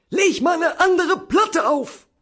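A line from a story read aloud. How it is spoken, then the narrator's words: Subdued shouting. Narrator (German): brüllte er, allerdings weniger laut als sonst, seine Art der Höflichkeit gegenüber dem weiblichen Geschlecht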